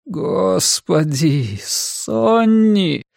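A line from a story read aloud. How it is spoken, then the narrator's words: Groaning. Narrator (Russian): простонал он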